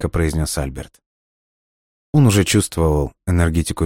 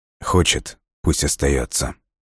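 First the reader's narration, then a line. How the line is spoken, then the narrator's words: Quiet. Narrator (Russian): тихо произнес Дмитрий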